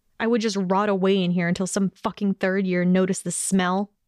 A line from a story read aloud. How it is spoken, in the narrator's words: questioned harshly